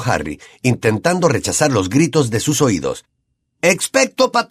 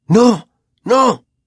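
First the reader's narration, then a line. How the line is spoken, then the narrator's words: Breathless exclamation. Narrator (Spanish): exclamó Harry entrecortadamente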